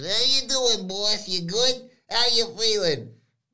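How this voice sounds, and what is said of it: Imitates another person's voice. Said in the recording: “That's a really good impersonation”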